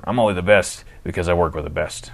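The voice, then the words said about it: Imitates another person's voice. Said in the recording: “my Bruce Willis impression.”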